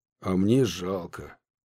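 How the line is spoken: Sighing. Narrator (Russian): вздохнул Удалов

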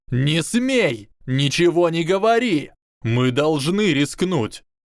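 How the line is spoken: Yelled. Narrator (Russian): завопил Теодор

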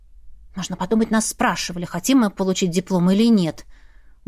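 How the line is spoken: Grumbled to herself. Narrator (Russian): буркнула про себя

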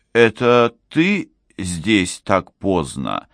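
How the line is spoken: Timid question. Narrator (Russian): спросил Энок робким голосом

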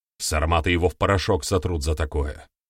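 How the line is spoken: Growling. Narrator (Russian): прорычал центурион

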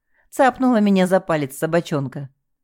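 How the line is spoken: Speaking, then laughing merrily. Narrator (Russian): говорил он и начинал весело ржать

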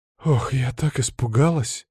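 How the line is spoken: Sudden sigh. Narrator (Russian): вздохнула вдруг Инга

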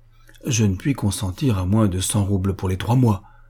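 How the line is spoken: Polite but firm. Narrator (French): dit Boris d'un ton poli mais résolu

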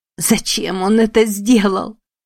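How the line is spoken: Muffled sobbing. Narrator (Russian): рыдала Эми, уткнувшись в плечо Юмея

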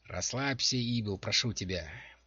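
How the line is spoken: Hiss. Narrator (Russian): прошипел Стиллер

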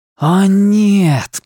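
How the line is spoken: Groaning. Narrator (Russian): простонал он

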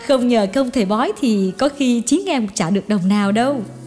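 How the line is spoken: Giggling. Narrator (Vietnamese): Rồi nàng cười khúc khích

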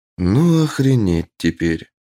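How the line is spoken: Exhaled. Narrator (Russian): выдохнул я

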